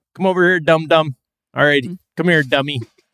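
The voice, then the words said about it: Put-on Philly accent, tight mouth. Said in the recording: “It's like a Philly accent-ish... I feel like the way you did it was you just kind of kept your mouth tighter.”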